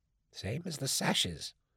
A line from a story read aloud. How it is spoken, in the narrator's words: Amos whispered in confidence